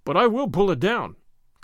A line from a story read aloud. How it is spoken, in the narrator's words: cried Gordon